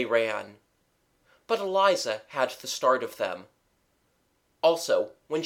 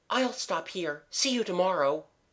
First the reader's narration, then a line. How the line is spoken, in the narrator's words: gasped Mabel